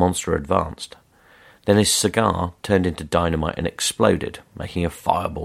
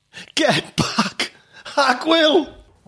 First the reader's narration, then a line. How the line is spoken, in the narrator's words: the victim, a fat gangster with a cigar stub permanently in his mouth, shouted